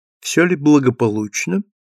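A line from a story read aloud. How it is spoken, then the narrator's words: Quiet question in French. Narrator (Russian): тихо спросила Люсиль на французском языке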